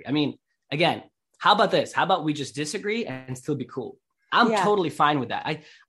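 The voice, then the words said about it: Russian accent. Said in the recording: “your accent ... I'm from Russia originally”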